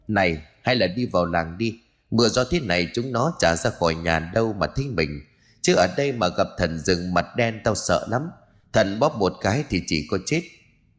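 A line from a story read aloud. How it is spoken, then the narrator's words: Deep gruff voice. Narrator (Vietnamese): tên bụng to liền cất giọng ồm ồm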